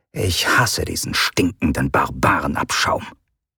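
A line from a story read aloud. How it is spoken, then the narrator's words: Female comrade growling. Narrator (German): hörten sie ihre Kameradin Sovares knurren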